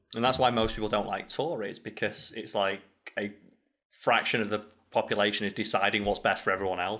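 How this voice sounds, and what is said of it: Strong northern English accent. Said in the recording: “I've got a strong northern accent”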